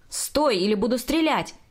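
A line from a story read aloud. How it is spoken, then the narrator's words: Policeman shouting. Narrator (Russian): кричал полицейский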